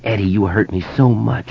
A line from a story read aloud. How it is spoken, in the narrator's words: she whispered